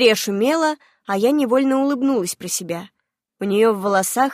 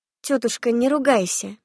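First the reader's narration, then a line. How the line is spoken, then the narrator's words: Soft gentle. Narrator (Russian): мягко сказала я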